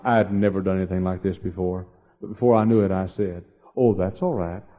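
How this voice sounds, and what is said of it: Texan accent. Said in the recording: “the other half is Texan. And I said, that's why my accent's like it is.”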